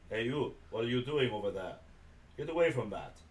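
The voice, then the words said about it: Video game guard character voice. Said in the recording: “I can do a decent guard impression in that.”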